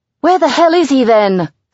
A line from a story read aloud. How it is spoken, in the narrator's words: Sam yells